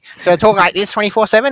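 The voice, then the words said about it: Exaggerated Australian accent. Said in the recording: “Will that make me sound more Australian?”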